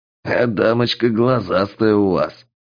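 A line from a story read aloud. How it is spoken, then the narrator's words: Chuckle from the dark. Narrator (Russian): хохотнули из мглы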